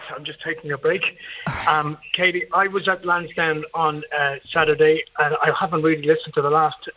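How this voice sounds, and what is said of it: Slightly out of breath. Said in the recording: “I'm a bit out of breath.”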